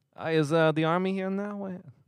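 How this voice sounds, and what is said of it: Poor mobster voice, Boston-ish accent. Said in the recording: “That was like terrible ... mobster ... Was that a little more Boston?”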